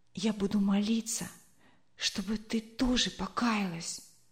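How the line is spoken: Whisper in ear. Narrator (Russian): Марина прошептала сестренке на ухо

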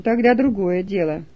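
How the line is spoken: Calmer reply. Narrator (Russian): отозвалась охранница уже более спокойно

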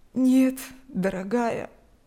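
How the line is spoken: Old woman, sad smile. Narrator (Russian): грустно улыбнулась пожилая женщина

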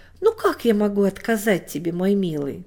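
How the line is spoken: Gentle yielding, after laughter. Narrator (Russian): Она сначала смеялась, но мальчик очень просил, и она согласилась и сказала

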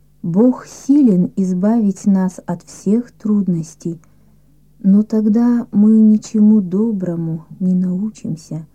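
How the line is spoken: Plain. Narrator (Russian): ответила мама

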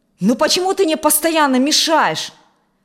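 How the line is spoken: Angry shout. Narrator (Russian): со злостью выкрикнул Алексей

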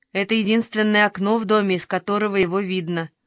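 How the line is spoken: Plain. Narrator (Russian): сказала Уна

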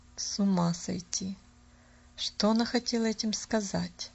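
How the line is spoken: Muttering. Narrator (Russian): пробормотала мисс Сноу

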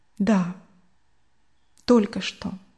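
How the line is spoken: Very quiet reply. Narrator (Russian): очень тихо ответил он

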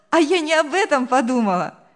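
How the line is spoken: Cheerful laughing. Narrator (Russian): весело рассмеялась девушка

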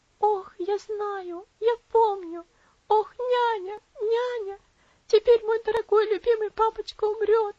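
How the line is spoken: Sobbing girl. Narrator (Russian): всхлипнула бедная девочка

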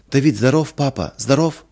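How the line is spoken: Joyful question. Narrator (Russian): спросила Лина радостно

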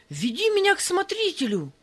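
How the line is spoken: Frantic shouting. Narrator (Russian): кричал Степан, не помня себя

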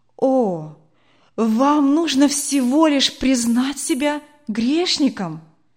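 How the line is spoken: Glad exclamation. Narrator (Russian): воскликнул доктор, радуясь тому, что услышал

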